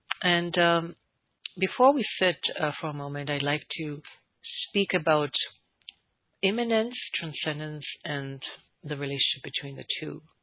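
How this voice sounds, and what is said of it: Congested voice from a cold. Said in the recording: “please excuse my funny voice a little bit. I had a cold or something like that. ... So you might hear me clearing my throat.”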